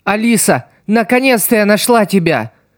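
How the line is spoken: Exclaiming. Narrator (Russian): воскликнула Сидзуко

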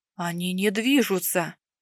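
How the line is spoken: Whisper. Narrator (Russian): Прошептал Ланис спустя некоторое время

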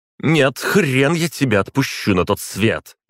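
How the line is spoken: Grim growl. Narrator (Russian): рыкнула Горислава, и улыбки в ее голосе не было

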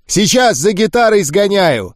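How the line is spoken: Shouted. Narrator (Russian): крикнул Гуль

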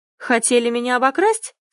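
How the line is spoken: Menacing question. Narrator (Russian): спрашиваю грозно

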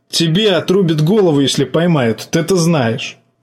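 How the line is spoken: Nervous laugh. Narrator (Russian): жаба нервно хохотнул

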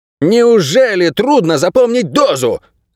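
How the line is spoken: Barked. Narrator (Russian): рявкнул он

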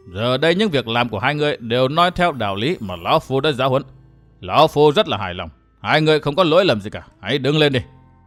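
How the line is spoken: Stern, long sigh. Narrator (Vietnamese): Thẩm lão bảo chủ ánh mắt nghiêm nghị, hồi lâu mới thở ra một hơi dài nói

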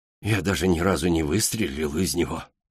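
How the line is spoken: Sighing. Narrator (Russian): вздохнул профессор

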